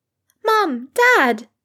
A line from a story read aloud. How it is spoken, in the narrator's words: exclaimed Rose, practically buzzing